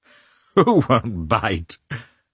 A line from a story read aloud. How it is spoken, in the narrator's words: said he, laughing